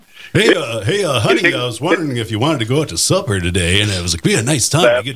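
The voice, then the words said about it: Booming radio announcer voice. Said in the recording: “too much of an announcer voice ... a booming voice ... Exactly it, yep.”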